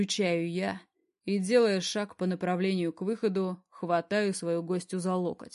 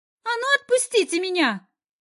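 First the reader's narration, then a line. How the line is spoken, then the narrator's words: Shrieks. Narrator (Russian): взвизгивает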